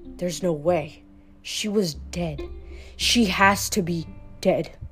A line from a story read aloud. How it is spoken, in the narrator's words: a medic whispered